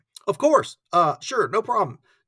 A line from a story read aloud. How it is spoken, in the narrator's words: Joe stammered again